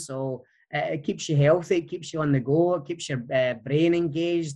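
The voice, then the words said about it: Distinctive foreign accent. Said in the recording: “That accent is so refreshing. ... His voice was amazing.”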